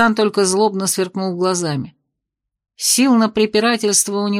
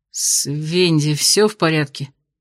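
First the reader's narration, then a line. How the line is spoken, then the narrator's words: Forced out. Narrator (Russian): выдавил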